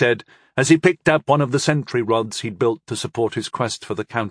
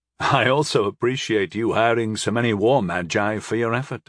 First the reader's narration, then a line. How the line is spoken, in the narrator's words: I chuckled